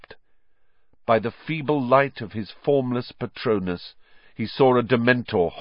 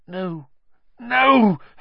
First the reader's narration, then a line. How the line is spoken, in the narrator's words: Harry gasped